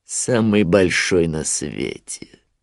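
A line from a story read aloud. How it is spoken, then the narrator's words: Grim smirk. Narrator (Russian): мрачно ухмыльнулся Шрам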